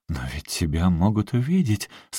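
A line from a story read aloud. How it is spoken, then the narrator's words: Desperate exclamation. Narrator (Russian): с отчаянием в голосе воскликнула Эдит Эстель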